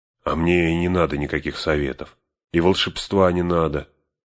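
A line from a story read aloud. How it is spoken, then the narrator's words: Grumbled. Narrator (Russian): пробурчал Сэм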